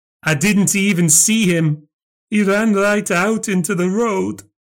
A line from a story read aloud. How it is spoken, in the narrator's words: cried out